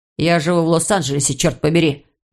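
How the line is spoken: Snapping retort. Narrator (Russian): огрызнулся Иван

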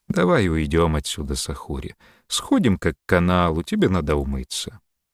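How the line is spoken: Gentle. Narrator (Russian): ласково сказал

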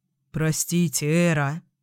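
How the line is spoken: Mumbling. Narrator (Russian): пробормотал энергетик

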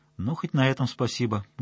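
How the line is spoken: Sad smiling voice. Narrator (Russian): грустно улыбнулся Хвостунов

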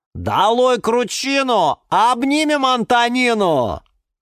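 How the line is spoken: Loud yell. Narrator (Russian): Заорал Банан Степан

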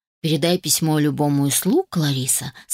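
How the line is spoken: Calm. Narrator (Russian): сказал я спокойно

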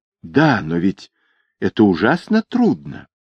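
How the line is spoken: Agitated. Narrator (Russian): Недда сказала взволнованно

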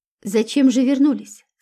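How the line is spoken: Plain. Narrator (Russian): спросил милиционер

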